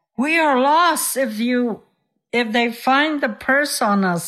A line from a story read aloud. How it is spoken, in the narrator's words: he cried